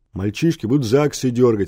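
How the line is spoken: Schoolgirl's deep bass voice. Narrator (Russian): сказала басом толстая гимназистка

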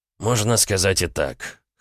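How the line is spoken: Snorting. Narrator (Russian): хмыкнул Ваня

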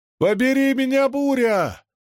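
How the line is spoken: Shout. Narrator (Russian): выкрикнул Лопен

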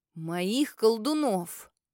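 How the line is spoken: Low angry growl. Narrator (Russian): Низко и зло прорычал вслух

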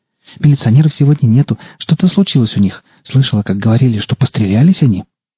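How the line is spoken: Rapid nonstop chatter. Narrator (Russian): Девушка не переставая тараторила

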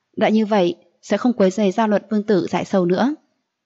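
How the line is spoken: Faint wry smile. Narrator (Vietnamese): Diệu Ly gật đầu cười nhạt nói

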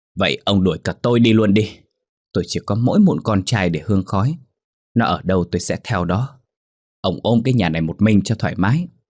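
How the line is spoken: Woman, very loud shout. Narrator (Vietnamese): Bà hét lên thật lớn

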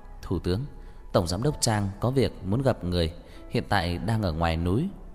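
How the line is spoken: Soft, smiling voice. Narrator (Vietnamese): Bà mỉm cười, mềm giọng nói

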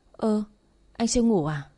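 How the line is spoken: Embarrassed stammer. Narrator (Vietnamese): Ngại quá tôi mới ấp úng nói

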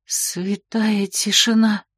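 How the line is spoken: Desperate whisper. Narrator (Russian): сорвался с губ тихоней отчаянный шепот

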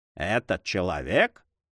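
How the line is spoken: Mocking tone. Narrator (Russian): начал де Грамон насмешливым тоном

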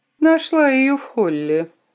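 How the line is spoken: Indifferent tone. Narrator (Russian): сказала я безразличным тоном

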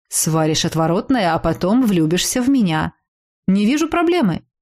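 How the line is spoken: Calm reply. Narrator (Russian): спокойно ответил Аэрн

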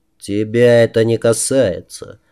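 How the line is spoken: Rather dry. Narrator (Russian): довольно сухо произнес он

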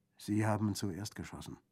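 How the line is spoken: Plain. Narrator (German): antwortete Orso

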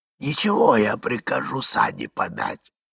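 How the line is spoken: Hoarse voice. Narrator (Russian): говорил сиплый голос

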